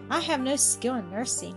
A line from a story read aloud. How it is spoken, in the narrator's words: he said